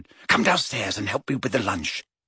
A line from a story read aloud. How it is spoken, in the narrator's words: she whispered